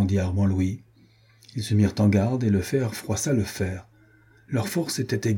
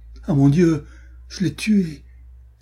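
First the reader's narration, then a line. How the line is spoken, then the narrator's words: Dismayed exclamation. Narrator (French): s'écria Renaud consterné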